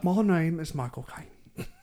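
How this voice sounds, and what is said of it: Weak Michael Caine impression. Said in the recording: “Can't really do a good Michael Caine impression either.”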